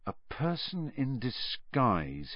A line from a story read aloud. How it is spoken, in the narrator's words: Harry muttered